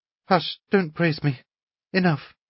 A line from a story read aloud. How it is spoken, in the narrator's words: Natasha whispered in confusion